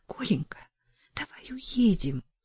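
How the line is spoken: Whispering, shouting, sobbing. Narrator (Russian): прошептала, прокричала, прорыдала она

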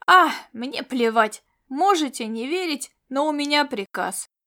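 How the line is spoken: Weary. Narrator (Russian): Устало проговорил Кавдори

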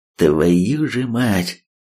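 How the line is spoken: Grim, out loud. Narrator (Russian): мрачно в голос произнес Третьяк

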